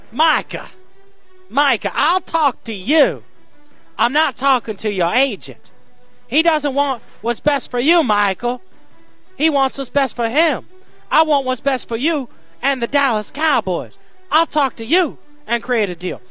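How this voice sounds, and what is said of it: Awful Jerry Jones impression. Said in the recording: “I'm going to attempt to explain this in an awful Jerry Jones accent. I know it's awful.”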